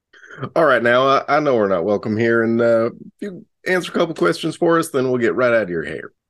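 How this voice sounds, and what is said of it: Put-on Texas accent. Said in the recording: “is this very Texas accent.”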